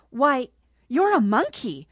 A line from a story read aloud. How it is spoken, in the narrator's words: Ruby Red exclaimed, sounding half her age